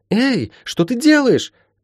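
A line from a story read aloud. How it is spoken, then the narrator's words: Indignant yelling. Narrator (Russian): тут же возмущенно завопила Ласка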